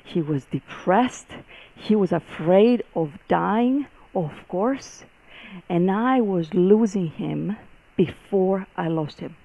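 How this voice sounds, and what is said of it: Greek accent. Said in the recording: “the accent is, I'm Greek”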